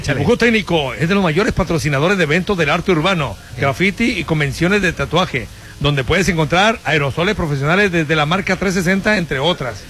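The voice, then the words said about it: Radio announcer voice. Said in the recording (Spanish): “poner voz de locutor”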